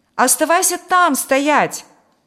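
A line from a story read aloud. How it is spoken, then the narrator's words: Shout. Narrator (Russian): крикнул я ему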